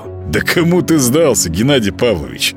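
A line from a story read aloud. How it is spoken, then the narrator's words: Laughing. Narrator (Russian): Молчан хохотнул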